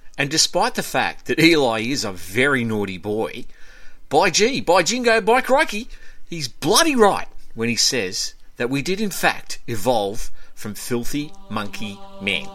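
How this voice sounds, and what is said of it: Exaggerated Australian accent. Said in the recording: “Australian accent coach”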